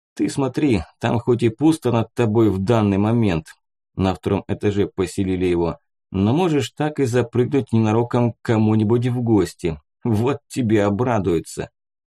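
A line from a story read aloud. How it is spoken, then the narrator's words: Laughing, mocking. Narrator (Russian): Посмеялся я над его конфузом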